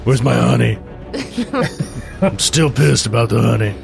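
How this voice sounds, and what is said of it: Bear character, New York accent. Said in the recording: “She loses her accent, too, when she's an animal. ... I'm from New York now.”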